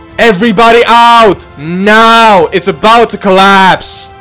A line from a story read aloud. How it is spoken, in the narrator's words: the firefighters yelling from afar